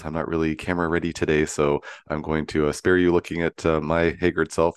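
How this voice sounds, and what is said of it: Voice sounds sick with a cold. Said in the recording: “you might be able to tell from my voice, I'm fighting off a bit of a cold”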